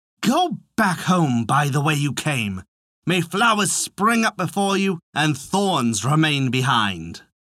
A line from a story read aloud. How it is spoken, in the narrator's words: The princess replied in a prudent tone